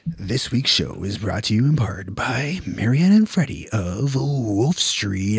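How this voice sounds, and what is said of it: Announcer-style radio voice. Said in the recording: “Radio Voice?”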